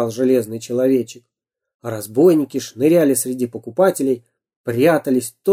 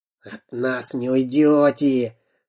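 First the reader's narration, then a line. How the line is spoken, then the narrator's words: Rasping saw-like hiss. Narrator (Russian): шипел, как пила, Дырка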